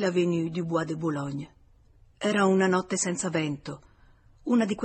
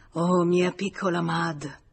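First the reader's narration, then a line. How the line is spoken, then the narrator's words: Murmured. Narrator (Italian): Georges mormorò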